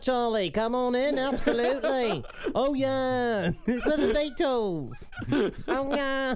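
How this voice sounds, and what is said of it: Put-on Liverpool accent. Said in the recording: “that's a good accent. ... Yeah, that's Liverpool. ... Liverpudlian.”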